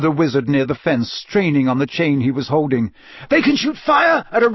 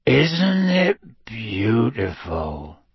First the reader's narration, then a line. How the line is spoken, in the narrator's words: said Hagrid softly